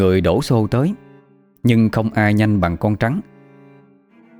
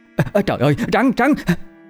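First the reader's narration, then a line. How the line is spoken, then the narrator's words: Cried out in alarm. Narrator (Vietnamese): tiếng thím Ba la lên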